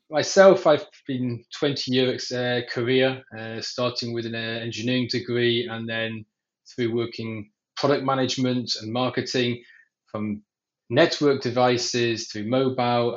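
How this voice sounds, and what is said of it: English accent. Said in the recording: “the accent might be deceiving. I was born in England.”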